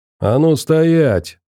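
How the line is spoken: Booming shout. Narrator (Russian): зычно крикнул он

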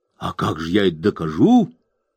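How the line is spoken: Exclamation. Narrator (Russian): воскликнул Том

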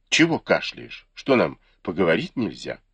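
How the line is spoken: Embarrassed, displeased question. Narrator (Russian): Сянлянь обладал вспыльчивым характером, но тут неожиданно смутился и недовольным тоном спросил

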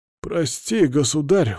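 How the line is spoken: Elderly exclamation. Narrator (Russian): воскликнул пожилой мастер

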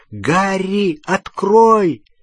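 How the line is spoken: Shouting. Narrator (Russian): он кричал что-то

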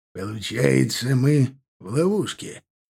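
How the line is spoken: Breathed out. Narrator (Russian): выдохнул Аркар

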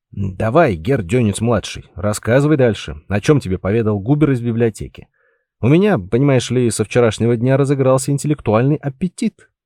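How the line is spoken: Short contented chuckle. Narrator (Russian): коротко хохотнул, как бывало, когда у него наступало весьма приятное состояние гармонии духа и тела

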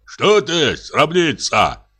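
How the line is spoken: Startled shout. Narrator (Russian): крикнул он ей и даже испугался

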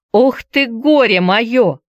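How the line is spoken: Exasperated shout. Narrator (Russian): в сердцах крикнула Дета

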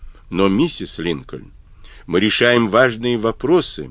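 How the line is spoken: Icy protest. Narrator (Russian): протестовал Сьюарт ледяным тоном

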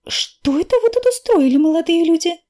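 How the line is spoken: Indignant. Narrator (Russian): возмущенно говорит библиотекарша

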